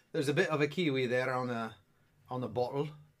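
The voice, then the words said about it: Poor attempt at New Zealand accent. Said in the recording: “That's not even a New Zealand accent.”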